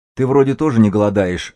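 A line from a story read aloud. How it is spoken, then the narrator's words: Snapped back gruffly. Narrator (Russian): огрызнулся косолапый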